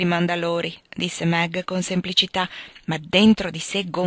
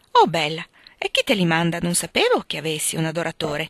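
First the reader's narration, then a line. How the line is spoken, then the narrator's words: Curious, surprised group exclaiming. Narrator (Italian): esclamarono, piene di curiosità e di sorpresa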